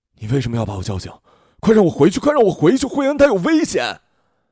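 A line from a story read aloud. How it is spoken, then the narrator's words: Loud shout. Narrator (Chinese): 我大声的喊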